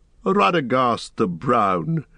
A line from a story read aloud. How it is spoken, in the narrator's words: laughed Saruman, and he no longer concealed his scorn